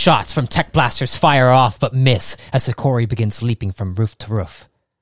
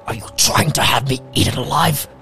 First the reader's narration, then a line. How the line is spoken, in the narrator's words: with fury he whispers